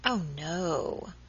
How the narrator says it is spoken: replied Miss Tonks, with a chilling accent

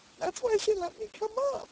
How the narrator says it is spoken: sobbed

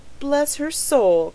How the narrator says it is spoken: cried the stout woman in amaze

